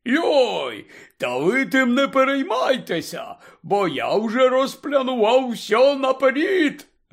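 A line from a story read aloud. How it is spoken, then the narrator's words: Joyful announcement. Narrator (Ukrainian): Радісно повідомив Гегрід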